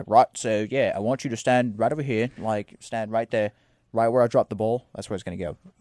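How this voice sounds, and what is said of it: Put-on Australian accent, poorly done. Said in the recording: “impeccable Australian accent, my friend. ... No, that was a terrible Australian accent.”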